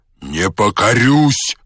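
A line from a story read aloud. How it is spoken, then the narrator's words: Menacing shout. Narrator (Russian): закричал казак грозно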